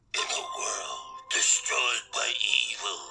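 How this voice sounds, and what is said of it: Movie trailer announcer voice. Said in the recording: “do the trailer guy voice”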